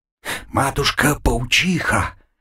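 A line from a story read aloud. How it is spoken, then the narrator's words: Frightened whisper. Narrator (Russian): в страхе прошептал Авангур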